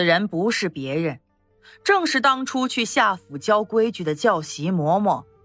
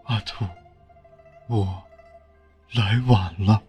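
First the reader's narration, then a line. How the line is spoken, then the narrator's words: Trembling, pained voice. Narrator (Chinese): 眼中流过一丝不忍，颤声的说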